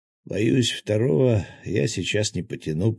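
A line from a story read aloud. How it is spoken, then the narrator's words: Hoarse, close to ear. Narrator (Russian): прохрипел ей на ухо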